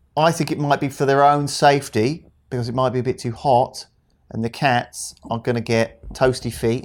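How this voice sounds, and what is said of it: Put-on Australian accent, sounds Cypriot. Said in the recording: “Why are you doing a Cypriot accent again? ... No, this is my Australian accent.”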